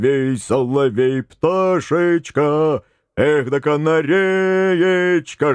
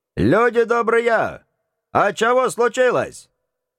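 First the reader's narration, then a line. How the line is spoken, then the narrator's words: Loud question. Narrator (Russian): Время от времени кто-нибудь громко спрашивал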